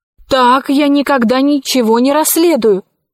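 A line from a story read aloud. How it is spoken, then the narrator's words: Exclamation. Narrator (Russian): воскликнула она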